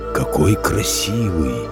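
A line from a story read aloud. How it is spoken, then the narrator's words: Giant's whisper. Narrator (Russian): прошептал великан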